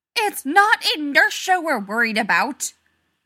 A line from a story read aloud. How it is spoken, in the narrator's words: Rodney shouted